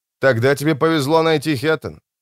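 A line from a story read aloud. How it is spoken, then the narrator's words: Snorting man. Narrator (Russian): Мужчина хмыкнул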